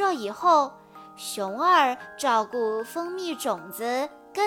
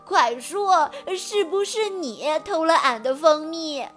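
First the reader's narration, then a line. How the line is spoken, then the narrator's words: Crying. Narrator (Chinese): 熊二的哭声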